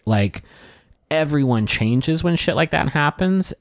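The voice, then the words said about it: Choked-up, emotional voice. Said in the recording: “I'm getting choked up like talking about it right now”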